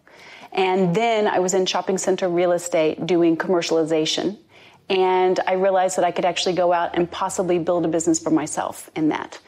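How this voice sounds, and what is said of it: American accent with British influence. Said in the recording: “my accent always throws people. So I'm American born, but I've been in the UK for almost 21 years now.”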